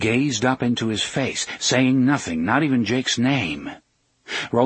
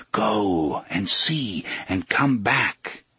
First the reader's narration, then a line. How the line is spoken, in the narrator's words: Roland repeated in a whisper